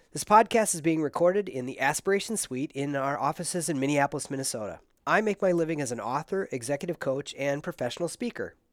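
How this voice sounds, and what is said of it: Stuffy, congested voice. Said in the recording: “I'm kind of fighting my way through a silly little head cold, so forgive my voice”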